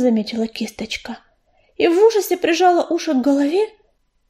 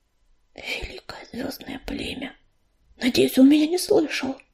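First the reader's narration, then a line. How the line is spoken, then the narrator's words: Whisper. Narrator (Russian): прошептала она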